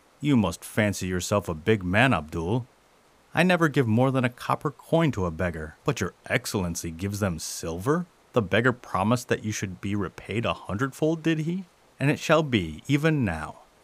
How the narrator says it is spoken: he said scornfully

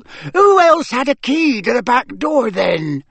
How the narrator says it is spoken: barked the cook

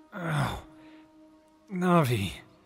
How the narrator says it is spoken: he groaned

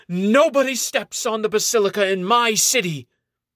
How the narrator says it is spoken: Outraged, she shouts

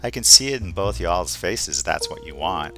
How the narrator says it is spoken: Luca just laughs and says under his breath

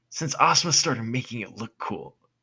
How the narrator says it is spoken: Naruto exclaimed loudly

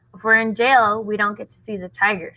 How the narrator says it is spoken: said Rob

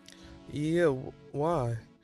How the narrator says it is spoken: He asked nervously

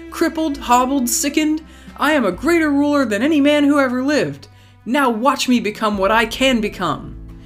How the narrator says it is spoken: he bellowed

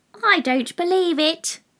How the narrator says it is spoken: said the pigeon

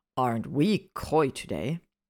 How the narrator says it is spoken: Hermione sighed loudly

